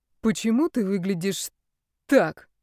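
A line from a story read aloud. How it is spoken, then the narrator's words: Hoarse question. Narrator (Russian): спросила Настя севшим голосом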